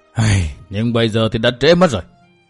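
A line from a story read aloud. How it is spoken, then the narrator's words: Old man sighing. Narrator (Vietnamese): Nam Hải Kỳ lão thở dài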